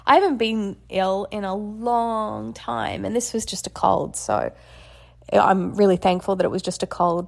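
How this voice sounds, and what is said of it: Slightly congested voice. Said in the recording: “You can probably still hear in my voice that I'm still a little bit congested”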